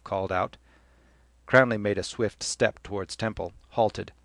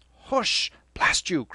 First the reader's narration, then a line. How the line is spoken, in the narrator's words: Cranley cried